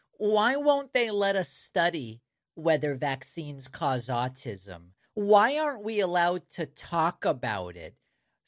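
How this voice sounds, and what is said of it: Impression of a MAGA supporter. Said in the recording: “my my impression of a MAGA talking about vaccines and autism”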